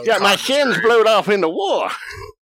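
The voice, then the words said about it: Imitated cartoon character voice. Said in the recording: “How do you do an impression of every character in that show that well?”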